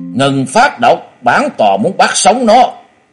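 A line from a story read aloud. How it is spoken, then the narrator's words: Sudden loud high shout. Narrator (Vietnamese): Bạch Cốt giáo chủ đột nhiên cao giọng quát lớn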